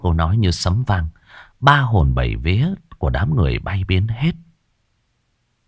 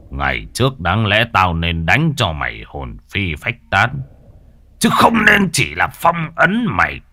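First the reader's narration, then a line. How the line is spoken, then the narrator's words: Loud laugh, defiant. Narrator (Vietnamese): Thầy Mạnh cười lớn, giọng đầy thách thức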